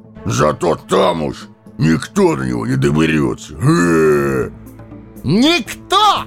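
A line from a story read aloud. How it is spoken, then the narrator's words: Full-force bellow. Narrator (Russian): гаркнул, что есть мочи, Сэмми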